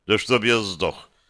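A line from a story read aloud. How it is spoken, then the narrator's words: Solemn. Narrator (Russian): торжественно произнес я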